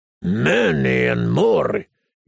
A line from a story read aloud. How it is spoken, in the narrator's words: he said irritably